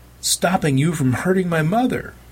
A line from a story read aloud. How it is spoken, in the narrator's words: Kicking her feet in the air while trying to hit backwards and connect with Al's face, she shouted